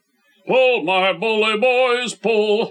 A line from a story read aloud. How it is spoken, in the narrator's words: roared back the old familiar chorus